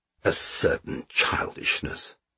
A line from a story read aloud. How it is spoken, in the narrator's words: muttered the Count